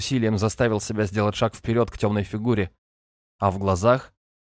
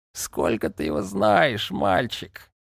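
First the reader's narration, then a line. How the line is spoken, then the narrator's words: Hoarse laughing woman. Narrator (Russian): Незнакомка зашлась хриплым смехом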